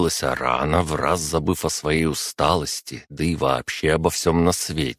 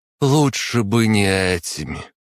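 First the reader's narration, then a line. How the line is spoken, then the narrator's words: Sad reply. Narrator (Russian): Грустно ответила та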